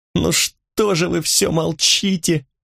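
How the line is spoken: Moaning through tears. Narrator (Russian): простонала сквозь слезы Гизина

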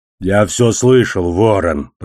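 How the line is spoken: Growling, one-eyed man. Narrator (Russian): прорычал одноглазый

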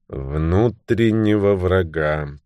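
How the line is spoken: Muttered. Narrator (Russian): пробормотал Томми

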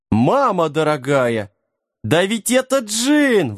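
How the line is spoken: Ecstatic yelping dog. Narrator (Russian): восторженно завопил песик

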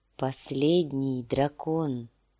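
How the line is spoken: Weak whisper. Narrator (Russian): слабым голосом шепнул сир Джорах

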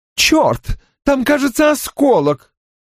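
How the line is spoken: Exclaiming. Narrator (Russian): воскликнула она

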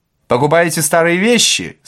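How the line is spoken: Menacing question. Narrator (Russian): спросил Остап грозно

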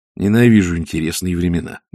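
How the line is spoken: Grumbled. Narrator (Russian): буркнул Ринсвинд

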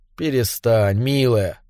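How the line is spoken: Murmur into hair. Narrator (Russian): бормотал я, лаская губами ее волосы

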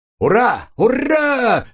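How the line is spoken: Crowd shouting. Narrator (Russian): закричали индусы

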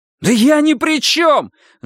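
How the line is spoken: Yelled. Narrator (Russian): заорал Арни

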